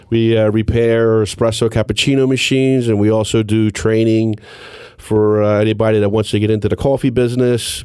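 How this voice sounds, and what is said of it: Slightly hoarse, froggy voice. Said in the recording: “excuse my voice a little bit, a little frog in my throat.”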